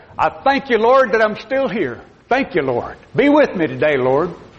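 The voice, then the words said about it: Imitated very southern Alabama accent. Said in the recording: “he's very, very southern accent, you know. He is an Alabama man of that generation”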